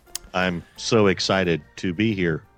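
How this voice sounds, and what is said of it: Flat, robotic monotone delivery. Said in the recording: “Very robotic of you ... very monotone-ish”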